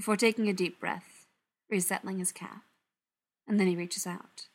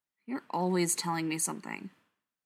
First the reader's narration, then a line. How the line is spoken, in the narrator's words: Patrick mutters